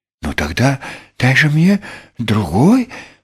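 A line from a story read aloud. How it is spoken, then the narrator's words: Pleading. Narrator (Russian): взмолился Крош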